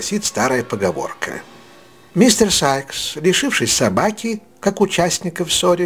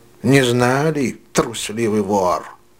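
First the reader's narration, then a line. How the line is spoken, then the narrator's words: Grumbled. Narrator (Russian): Проворчал Сайкс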